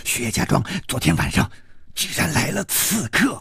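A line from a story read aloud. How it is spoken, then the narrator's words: Lowered voice. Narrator (Chinese): 小火神压低了声音说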